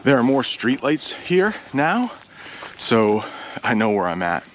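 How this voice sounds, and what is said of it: Slightly out of breath. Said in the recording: “There's a little bit of a hill here, so I'm a little out of breath.”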